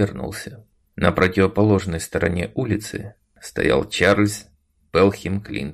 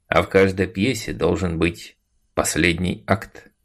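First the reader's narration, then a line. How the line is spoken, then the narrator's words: Calm. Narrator (Russian): спокойно сказал он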